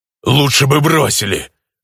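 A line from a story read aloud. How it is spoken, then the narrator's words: Growl. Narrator (Russian): рыкнула тень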